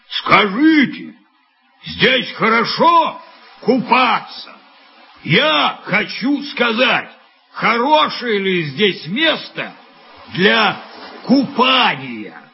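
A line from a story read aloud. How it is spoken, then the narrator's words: Shouted to group. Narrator (Russian): крикнул он, обращаясь к ребятам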